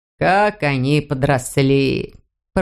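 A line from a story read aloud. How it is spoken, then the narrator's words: Surprised mutter. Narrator (Russian): пробормотал удивленно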